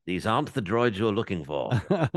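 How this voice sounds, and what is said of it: Poor imitation of another person's voice. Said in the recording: “my shitty Alec Guinness impression”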